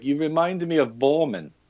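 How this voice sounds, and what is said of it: Poor put-on German accent. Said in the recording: “to your German listeners, forgive my horrible accent”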